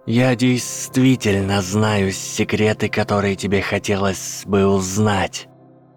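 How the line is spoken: Hissed. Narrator (Russian): прошипел Гарри

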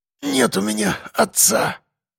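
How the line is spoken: Sudden breathy exclamation. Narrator (Russian): Вдруг выдохнул Костя

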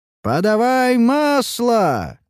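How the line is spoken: Shouting from the walls. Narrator (Russian): кричали на стенах

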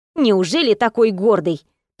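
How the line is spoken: Grumbling. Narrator (Russian): проворчала Даша

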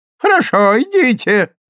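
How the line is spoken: Shrill trembling voice offstage. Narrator (Russian): ответил визгливый и дрожащий голос из задней комнаты

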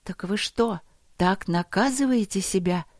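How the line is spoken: Incredulous breath. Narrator (Russian): неверяще выдохнула Алина

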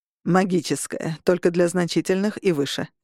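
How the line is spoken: Plain. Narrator (Russian): сказал Августин

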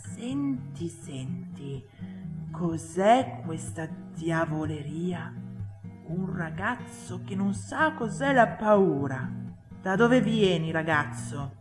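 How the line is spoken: Whisper from behind. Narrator (Italian): una voce alle sue spalle che sussurrava

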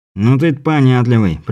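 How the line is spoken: Grumbling. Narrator (Russian): проворчал первый голос

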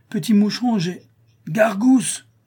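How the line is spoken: Heavy man exclaiming. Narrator (French): s'écria le gros boiteux

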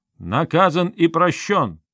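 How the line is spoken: Loud ritual cry. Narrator (Russian): Князь Чигор, как старший по годам, громко выкрикнул древнюю формулу

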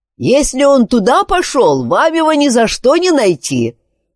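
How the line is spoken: Driver shouting after. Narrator (Russian): прокричал ему вслед возница

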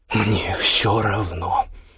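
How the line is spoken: Hiss. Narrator (Russian): прошипела Иоганна

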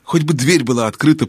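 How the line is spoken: Whispered. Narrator (Russian): прошептал Юстас

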